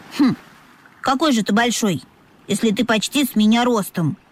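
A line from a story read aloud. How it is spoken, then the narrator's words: Snorting young dolphin. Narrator (Russian): фыркнул дельфиненок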